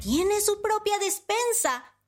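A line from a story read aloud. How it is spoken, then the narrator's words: Surprised exclamation. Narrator (Spanish): exclamó Panambí sorprendida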